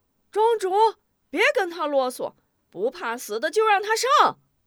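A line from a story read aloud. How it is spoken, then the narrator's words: Crowd shouting in unison. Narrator (Chinese): 众村民也跟着齐声呼喊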